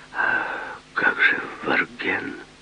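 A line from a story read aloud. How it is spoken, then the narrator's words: Whispered. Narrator (Russian): Он прошептал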